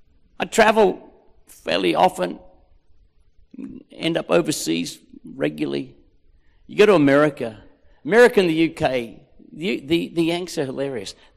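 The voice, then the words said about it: Australian accent. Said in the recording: “They are just enamored with our accent. We don't think we've got one. Newsflash, we've got one... you're an Aussie”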